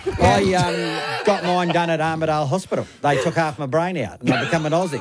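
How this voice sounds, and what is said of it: Slight New Zealand accent. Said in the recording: “you've still got the accent... Little teeny bit... He's still a Kiwi.”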